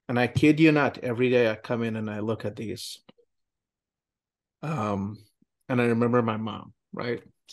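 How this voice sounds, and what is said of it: Teary, emotional voice. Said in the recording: “I'm getting a little teary here”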